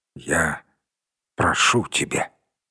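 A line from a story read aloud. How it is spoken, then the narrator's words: Quiet. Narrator (Russian): тихо произнес Кармадон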